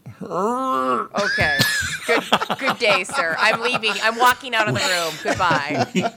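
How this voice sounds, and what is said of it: Imitates another person's voice. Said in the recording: “Here's my impression of Brittany.”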